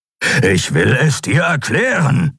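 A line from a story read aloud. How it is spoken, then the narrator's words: Growled. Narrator (German): knurrte Keru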